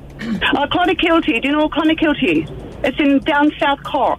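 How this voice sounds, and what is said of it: Irish accent. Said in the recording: “Irish accent”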